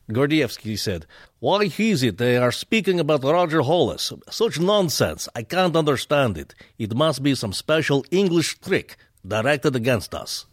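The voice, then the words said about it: Put-on Russian accent. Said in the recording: “Please do a Russian accent. ... The eternal Russian guy?”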